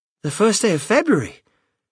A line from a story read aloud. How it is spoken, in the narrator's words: cried Mrs